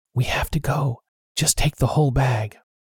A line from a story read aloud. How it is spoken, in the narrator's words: I ... whispered